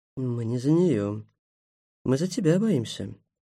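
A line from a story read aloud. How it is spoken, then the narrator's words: Calm, witch. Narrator (Russian): спокойно сказала ведьма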